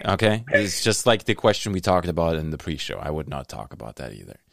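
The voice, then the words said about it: Speaks with a noticeable accent. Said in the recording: “that's my accent. It's throwing you off.”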